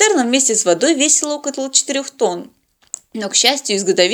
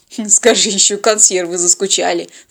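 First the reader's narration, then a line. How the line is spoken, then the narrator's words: Snorted. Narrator (Russian): фыркнул Теодор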